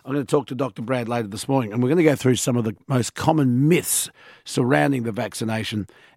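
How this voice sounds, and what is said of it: Strained, struggling voice. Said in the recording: “As you can hear, my voice is still struggling after the weekend”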